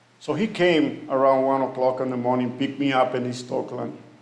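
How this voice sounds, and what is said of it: Memorable foreign accent. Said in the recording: “who will forget your accent?”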